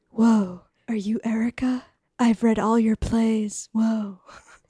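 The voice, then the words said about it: Keanu Reeves impression. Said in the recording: “He talks in his Keanu voice.”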